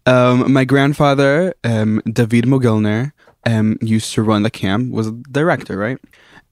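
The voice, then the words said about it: American English accent. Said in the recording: “as you can probably hear by my accent, I'm American.”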